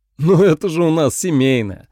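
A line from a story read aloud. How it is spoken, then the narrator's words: Laughing. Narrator (Russian): рассмеялся Майкл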